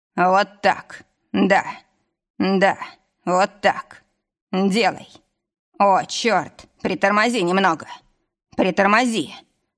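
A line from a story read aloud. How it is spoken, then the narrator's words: Growl, body shaking. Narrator (Russian): рыкнул, затрясся телом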